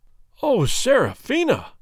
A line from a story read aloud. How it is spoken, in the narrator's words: cried he in a tone of agony